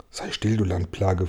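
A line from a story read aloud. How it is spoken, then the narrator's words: Whisper. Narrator (German): flüsterte Regenwurm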